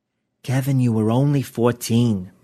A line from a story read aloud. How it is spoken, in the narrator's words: Martha said soothingly